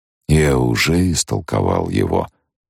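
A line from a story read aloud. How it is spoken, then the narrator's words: Sepulchral old man's voice. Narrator (Russian): ответил старик за могильным голосом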